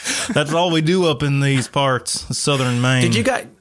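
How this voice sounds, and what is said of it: Put-on Southern accent. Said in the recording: “why is it a Southern accent?”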